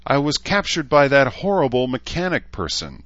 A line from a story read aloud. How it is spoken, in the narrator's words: the unicorn cried, her eyes brimming with tears